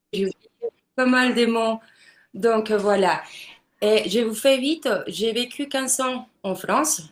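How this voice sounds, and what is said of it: Strong foreign accent in French. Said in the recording (French): “mon accent, il est, il est fort là”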